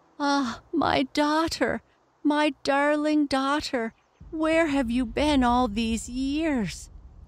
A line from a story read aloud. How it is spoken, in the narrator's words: cried the delighted father